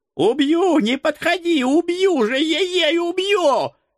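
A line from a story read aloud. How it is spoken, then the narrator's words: Shrill demon squeal. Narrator (Russian): визжал бес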